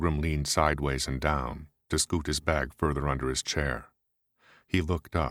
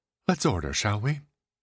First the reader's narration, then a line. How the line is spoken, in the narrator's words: said Hollis, quickly, hugely grateful for the arrival of their waitress